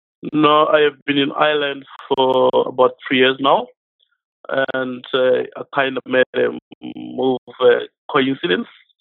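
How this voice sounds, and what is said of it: South African accent. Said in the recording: “your accent doesn't sound Irish ... I'm from South Africa ... I'm from Pretoria”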